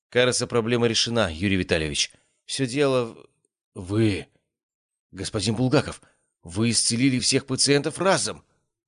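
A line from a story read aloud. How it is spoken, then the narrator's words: Stammering. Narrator (Russian): заикаясь, произнес Загорский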